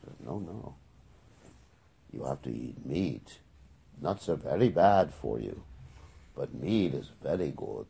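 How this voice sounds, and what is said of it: Put-on German accent. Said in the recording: “That's a German accent.”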